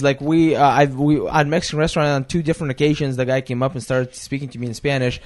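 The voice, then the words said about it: Russian accent. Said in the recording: “I do have a Russian accent.”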